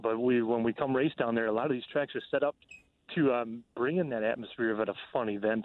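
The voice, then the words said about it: Northern US Minnesota accent. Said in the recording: “I'm from Minnesota, if you can tell. I got a northern accent.”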